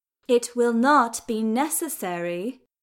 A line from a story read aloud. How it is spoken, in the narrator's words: she said, each word carefully and slowly enunciated